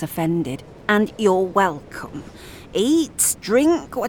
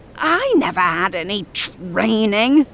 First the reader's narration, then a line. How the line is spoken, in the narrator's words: Eric shouts